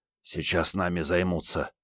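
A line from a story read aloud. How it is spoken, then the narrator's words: Whisper. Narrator (Russian): прошептал Генка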